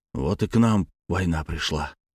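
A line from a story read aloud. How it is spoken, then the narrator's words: Quiet, vexed older man. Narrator (Russian): тихим голосом, полным досады, заключил директор школы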